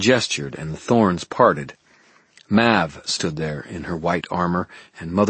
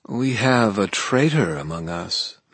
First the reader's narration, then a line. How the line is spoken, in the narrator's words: Mab purred